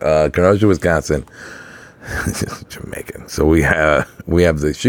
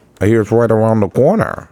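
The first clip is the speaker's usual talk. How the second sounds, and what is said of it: Bad put-on Wisconsin accent. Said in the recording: “that was a horrible accent. I try to just like Bobby's World's Mom”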